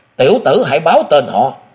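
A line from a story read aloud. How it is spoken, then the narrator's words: Wounded youth's anguished howl. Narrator (Vietnamese): ngực áo thiếu niên đã bị thấm máu, hăng thảm thiết gào lên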